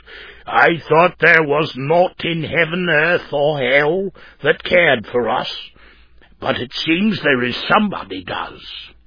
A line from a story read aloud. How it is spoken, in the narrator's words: A surly-looking man growled out